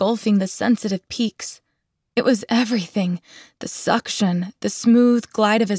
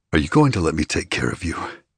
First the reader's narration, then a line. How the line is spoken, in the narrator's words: He murmured